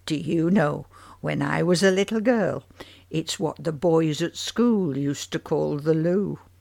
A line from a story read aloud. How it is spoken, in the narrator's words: added with a chuckle